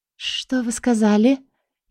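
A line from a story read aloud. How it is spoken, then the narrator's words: Barely audible whisper. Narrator (Russian): еле слышным шепотом спросила я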